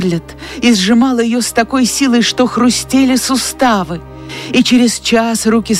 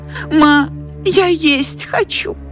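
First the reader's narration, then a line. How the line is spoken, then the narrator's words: Pleading whisper. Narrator (Russian): Мелани взмолилась шепотом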